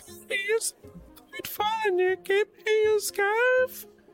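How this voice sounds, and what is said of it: Imitated voice, sounds strained. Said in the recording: “What happened to your voice? ... my Rosie impression ... It sounded like it hurt.”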